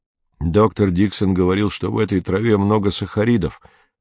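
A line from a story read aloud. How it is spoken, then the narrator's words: Plain. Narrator (Russian): сказал Мбога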